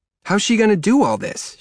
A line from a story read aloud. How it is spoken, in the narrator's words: she shouts